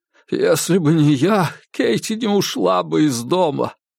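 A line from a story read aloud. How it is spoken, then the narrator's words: Tearful, broken cry. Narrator (Russian): сквозь слезы выкрикнул прерывистым голосом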